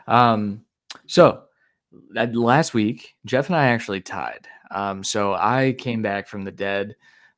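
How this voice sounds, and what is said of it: Hoarse, fading voice. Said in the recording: “I'm losing my voice already”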